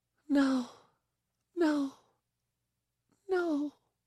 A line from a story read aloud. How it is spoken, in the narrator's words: she whispered